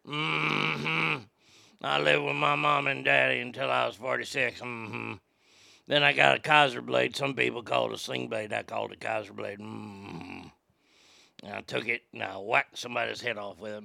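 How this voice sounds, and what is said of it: Sling Blade character impression. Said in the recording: “If you've never seen Sling Blade, you don't know how great that impression is ... that impersonation is fantastic”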